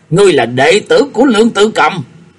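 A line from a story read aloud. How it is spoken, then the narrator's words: Blurted question. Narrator (Vietnamese): Triệu Kiến Hoài lão buộc miệng hỏi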